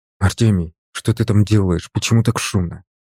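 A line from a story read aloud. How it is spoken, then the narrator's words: Whisper. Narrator (Russian): прошептал ему я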